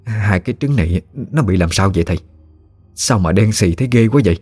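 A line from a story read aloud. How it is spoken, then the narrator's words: Trembling broken speech. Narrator (Vietnamese): bà run rẩy nói không tròn câu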